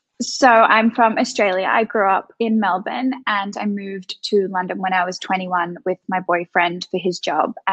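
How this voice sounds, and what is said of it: Australian accent. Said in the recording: “you definitely have an Aussie accent”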